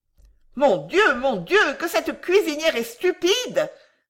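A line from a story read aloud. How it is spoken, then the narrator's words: Exasperated group outcry. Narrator (French): s'écrièrent les 30 pensionnaires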